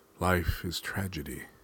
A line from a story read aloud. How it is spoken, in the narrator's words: solemnly observed